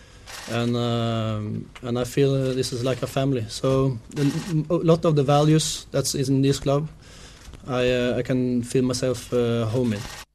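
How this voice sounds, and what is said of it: Hard-to-place European accent. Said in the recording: “he has that European accent. You can't quite tie it down where he's from.”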